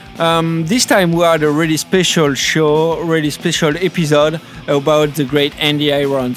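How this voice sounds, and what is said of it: Strong French accent in English. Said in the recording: “Normally we are a French surf podcast, so we exclusively do our show in French ... we have a pretty strong accent and uh, our English won't be really perfect”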